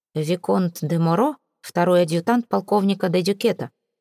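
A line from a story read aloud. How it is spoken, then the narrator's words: Dry reply. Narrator (Russian): сухо ответил Тьерри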